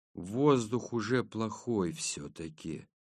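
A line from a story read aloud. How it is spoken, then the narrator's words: Quiet. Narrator (Russian): негромко сказал Маркус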